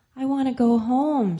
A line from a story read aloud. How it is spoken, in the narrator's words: cried